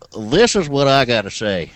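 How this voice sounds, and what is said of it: Southern accent, sounds sick. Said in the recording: “it's a sick Southern accent”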